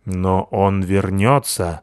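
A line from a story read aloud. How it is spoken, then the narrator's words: Gloomy hedgehog promise. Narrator (Russian): мрачно пообещал высунувшийся из норы еж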